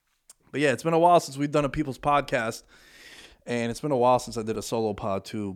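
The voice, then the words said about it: Out of breath, talking fast. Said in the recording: “I don't know why I'm going so fast. I'm out of breath because I had a tremendous workout today.”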